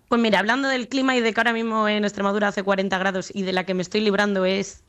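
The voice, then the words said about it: Spanish accent leaning Madrid. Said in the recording (Spanish): “el acento es un poco tirando de Madrid”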